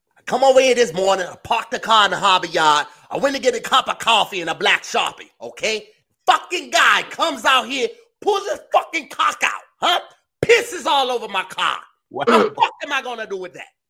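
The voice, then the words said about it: Put-on Boston accent. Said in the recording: “Here we go, Boston.”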